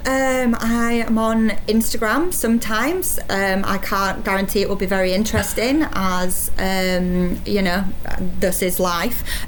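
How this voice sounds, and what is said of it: Strong put-on Yorkshire accent. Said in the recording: “this horrible accent. And I've just offended the whole of Yorkshire ... how bad this accent's going to be and how strong the accent's going to be”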